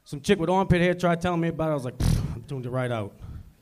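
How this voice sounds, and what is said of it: New Orleans accent. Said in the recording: “hey, I like your accent. Where are you from? I said, New Orleans.”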